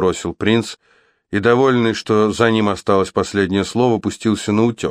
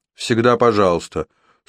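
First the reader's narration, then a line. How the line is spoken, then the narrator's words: Dry remark. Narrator (Russian): сухо заметил Уилл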